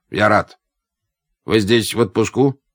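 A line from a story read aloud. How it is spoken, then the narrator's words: Dispassionate dictation. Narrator (Russian): продиктовал он своим бесстрастным тоном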